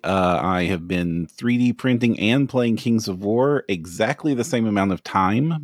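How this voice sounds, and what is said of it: Kentucky Southern US accent. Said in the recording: “If you can tell from the accent, I'm from Kentucky.”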